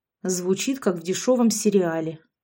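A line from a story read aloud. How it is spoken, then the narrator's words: Grumble. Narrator (Russian): буркнула я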